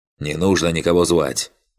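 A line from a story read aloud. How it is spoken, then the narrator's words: Sharp shout. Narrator (Russian): прикрикнул Финиас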